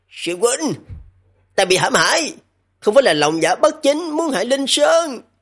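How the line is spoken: Hurried loud shout. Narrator (Vietnamese): Tự tại Đại Minh Vương vội vàng hét lớn

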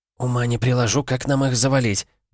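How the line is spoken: Whispered. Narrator (Russian): прошептала Кайла

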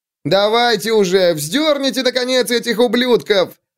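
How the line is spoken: Yell, crowd joining in. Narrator (Russian): Заорал кто-то, и другие голоса его поддержали

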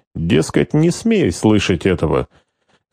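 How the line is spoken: Insinuating, ingratiating. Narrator (Russian): Марта вкрадчиво поддержала гестаповца

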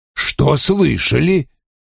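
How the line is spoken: Rude reply. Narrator (Russian): грубо ответил Вульф

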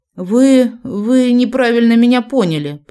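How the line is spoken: Stammering babble. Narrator (Russian): пролепетала я, заикаясь

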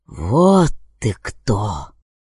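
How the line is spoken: Hissing officer. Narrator (Russian): прошипел сотник

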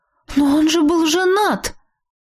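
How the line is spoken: Exclaiming. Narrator (Russian): воскликнула

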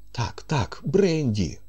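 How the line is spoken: Exclamation. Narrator (Ukrainian): вигукнув

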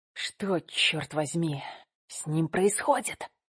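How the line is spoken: Whisper. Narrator (Russian): прошептал Никита

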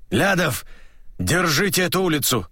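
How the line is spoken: Hoarse rasp. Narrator (Russian): прохрипел Машляк

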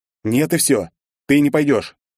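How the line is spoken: Sharp exasperated declaration. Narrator (Russian): не выдержав, резко заявил я

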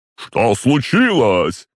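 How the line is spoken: Shout from afar. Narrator (Russian): крикнула она издалека

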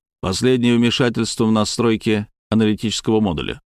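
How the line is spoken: Plain. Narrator (Russian): спросил я

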